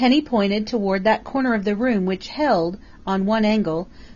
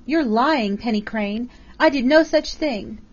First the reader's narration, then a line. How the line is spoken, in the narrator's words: Flora Miles cried hysterically